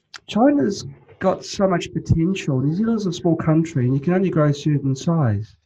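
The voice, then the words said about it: New Zealand accent. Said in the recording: “You could probably tell by my accent ... I was thinking Australia or New Zealand ... New Zealand, yeah.”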